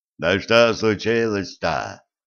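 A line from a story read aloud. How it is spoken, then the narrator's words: Frightened low boom. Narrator (Russian): прогудел Митя, испуганно озираясь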